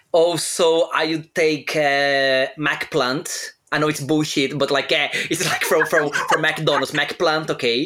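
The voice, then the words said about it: Non-native English accent. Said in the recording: “You know my accent”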